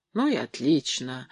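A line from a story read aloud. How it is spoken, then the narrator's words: Muttering. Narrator (Russian): бормотал Сережа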